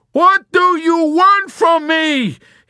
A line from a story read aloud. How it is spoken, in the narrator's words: he yelled at her in a whining and exasperated confusion